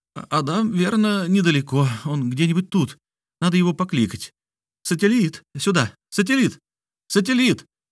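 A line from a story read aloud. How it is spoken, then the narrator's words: Pitiful whining. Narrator (Russian): Диана продолжала жалобно скулить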